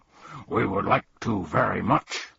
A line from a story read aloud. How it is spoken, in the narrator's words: barked Tuck